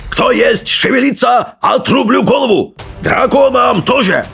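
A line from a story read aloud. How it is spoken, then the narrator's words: Roaring, broken Old Norse. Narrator (Russian): Проревел первый похититель на очень плохом древненорвежском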